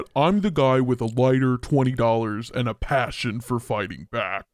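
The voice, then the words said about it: Imitates another person's voice. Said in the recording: “do that voice, it's almost Jesse Ventura. It's almost United States Representative ... Very, very close to Jesse Ventura”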